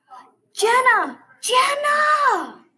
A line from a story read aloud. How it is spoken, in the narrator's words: was yelling my name through my microphone